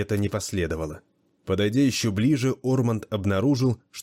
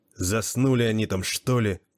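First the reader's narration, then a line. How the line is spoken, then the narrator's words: Furious hiss. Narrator (Russian): в ярости прошипел англичанин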